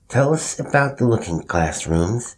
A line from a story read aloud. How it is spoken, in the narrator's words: Bill lisped